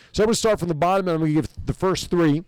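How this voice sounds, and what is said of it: New Jersey accent. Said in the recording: “my Jersey accent.”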